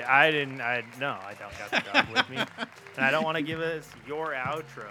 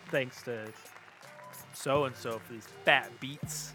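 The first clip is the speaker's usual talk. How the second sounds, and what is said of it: Imitates another person's voice. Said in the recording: “That sounds just like the way I do it right there. That was a perfect impression.”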